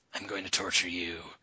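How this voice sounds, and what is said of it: Performs a fictional character's voice. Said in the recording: “That's my Odium voice. My Odium impression.”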